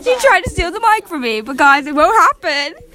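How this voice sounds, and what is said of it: Bad put-on British accent. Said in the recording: “I just switched to British ... Your accent's so bad.”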